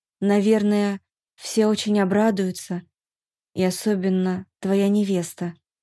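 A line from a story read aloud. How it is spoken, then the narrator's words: Sad guess. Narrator (Russian): предположила я и поймала себя на том, что мне грустно от этих мыслей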